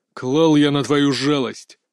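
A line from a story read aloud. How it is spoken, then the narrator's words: Growl. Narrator (Russian): рыкнул Змеев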